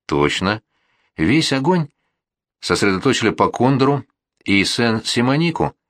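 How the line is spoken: Confused officer confirming. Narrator (Russian): растерянно подтвердил старший офицер

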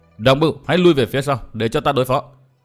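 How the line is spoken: Furious loud shout. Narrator (Vietnamese): Diệu Đinh cũng cả giận quát lớn

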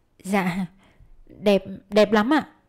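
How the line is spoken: Stammering reply. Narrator (Vietnamese): Thúy Anh ấp úng đáp

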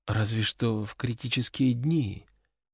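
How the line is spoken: Girl, barely audible. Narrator (Russian): еле слышно отозвалась девушка

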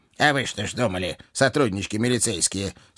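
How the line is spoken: Sympathetic grumble. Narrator (Russian): сочувственно проворчал ворон

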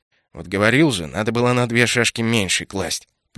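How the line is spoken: Grumbling. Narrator (Russian): проворчал Кайл

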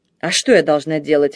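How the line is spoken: Snapping. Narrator (Russian): огрызнулась она

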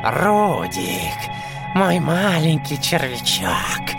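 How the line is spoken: Hoarse distorted rasp. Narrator (Russian): прохрипел дядя Улыбка искаженным голосом

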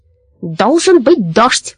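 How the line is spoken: Angry croaking. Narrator (Russian): каркал он сердито

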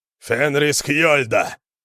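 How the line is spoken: Howling wail. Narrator (Russian): взвыл Йорин

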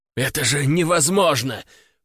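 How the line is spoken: Wheezing, heavy breathing. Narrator (Russian): прохрипел он, тяжело дыша

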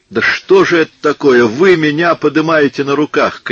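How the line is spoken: Shout. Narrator (Russian): крикнул

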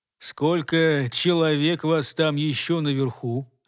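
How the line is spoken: Calm question. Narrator (Russian): спокойно спросил голос

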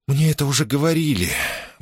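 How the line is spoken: Sigh, princess. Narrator (Russian): вздохнула принцесса

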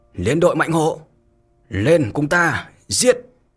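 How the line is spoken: Thunderous battle shout. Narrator (Vietnamese): Đôn Tử ầm ầm đáp lời, lớn tiếng mà thét

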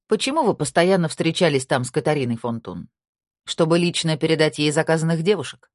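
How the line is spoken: Sharp question. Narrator (Russian): резко спросила Тина

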